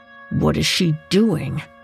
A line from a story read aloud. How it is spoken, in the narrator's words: John mumbled beneath his breath